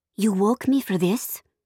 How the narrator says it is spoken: I whispered to Sophia

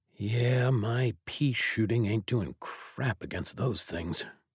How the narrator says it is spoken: he muttered

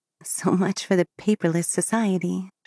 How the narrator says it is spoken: she muttered to herself

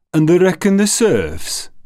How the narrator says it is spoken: Hanton said scornfully to his fellow outlaws

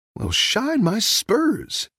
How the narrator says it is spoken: Woody exclaimed

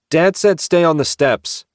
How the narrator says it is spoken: Carlos barked

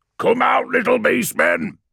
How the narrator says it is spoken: bellowed

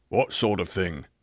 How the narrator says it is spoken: growled the other, a big, beefy person

